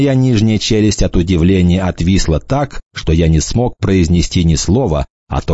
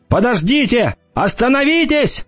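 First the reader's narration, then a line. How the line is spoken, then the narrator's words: Shouting. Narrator (Russian): кричал я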